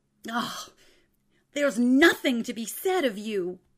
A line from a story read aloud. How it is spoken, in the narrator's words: he shouted